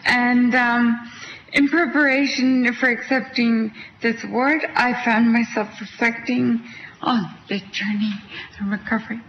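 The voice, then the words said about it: Quebec French-Canadian accent. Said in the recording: “I'm from Canada. That's where my accent's from. I'm from Quebec.”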